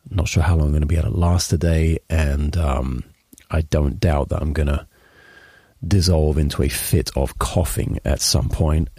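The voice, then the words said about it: Sick-sounding voice. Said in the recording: “being sick... You can probably hear it in my voice.”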